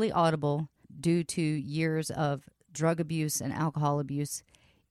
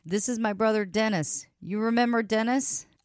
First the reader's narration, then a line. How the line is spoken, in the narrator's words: causing Brian to exclaim